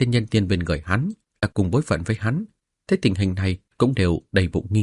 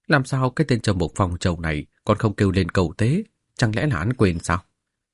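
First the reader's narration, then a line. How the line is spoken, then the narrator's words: Puzzled suspicious muttering. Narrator (Vietnamese): Vương Đồng Dương cau mày, nghi ngờ không hiểu, lẩm bẩm nói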